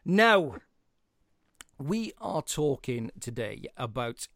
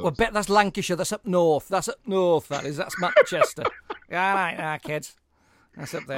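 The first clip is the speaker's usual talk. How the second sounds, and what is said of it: Bad put-on northern English accent. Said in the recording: “my terrible northern accent”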